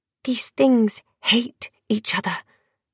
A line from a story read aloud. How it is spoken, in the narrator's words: she whispered